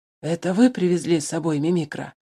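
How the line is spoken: Hoarse question. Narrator (Russian): хрипло спросил он у Алексея Александровича

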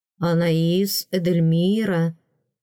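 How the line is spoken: Slow, savoring. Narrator (Russian): медленно повторил принц, словно пробуя мое имя на вкус

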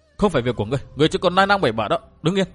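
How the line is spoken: Fearful urgent shout. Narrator (Vietnamese): Sợ họ Vu gặp nguy hiểm, Liễu Tiểu Hồng quát chàng

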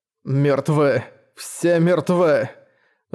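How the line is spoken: Bitter, strained. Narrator (Russian): с горечью выдавил

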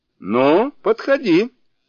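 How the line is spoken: Shouting demon. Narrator (Russian): закричал демон

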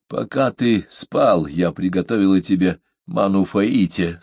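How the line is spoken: Slightly hoarse. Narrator (Russian): сказала она чуть хриплым голосом

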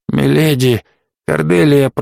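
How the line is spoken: Hoarse, straining. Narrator (Russian): прохрипел он, силясь освободить руки от шелковых пут

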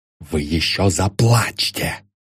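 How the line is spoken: Hissed. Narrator (Russian): прошипел Ламсдорф

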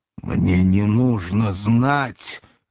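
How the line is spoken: Stifled angry voice. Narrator (Russian): придушенным злым голосом отозвался Пилат

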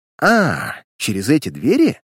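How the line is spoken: Astonished exclamation. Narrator (Russian): воскликнул изумленный начальник полиции

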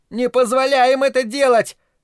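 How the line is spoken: Yelled. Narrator (Russian): завопил Питер

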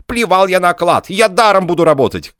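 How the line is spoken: Agitated shouting. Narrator (Russian): кричал инженер, взволнованно

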